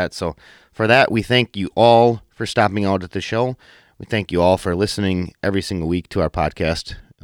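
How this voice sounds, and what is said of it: Rough-sounding voice. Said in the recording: “My voice is a little, it's in a little rough shape the last couple of days.”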